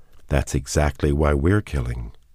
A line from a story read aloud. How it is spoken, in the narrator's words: she said calmly